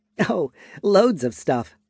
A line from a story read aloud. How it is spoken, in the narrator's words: Aurevi said with a light laugh